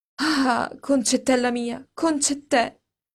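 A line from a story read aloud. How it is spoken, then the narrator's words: Theatrical, ardent grief. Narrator (Italian): coi modi teatrali, ardenti, che le mie paesane hanno nel dolore, esclamò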